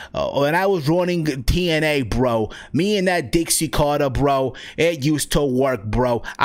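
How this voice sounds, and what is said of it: Vince Russo impression. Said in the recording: “I can do a Vince Russo, impersonation... I would hit that impersonation”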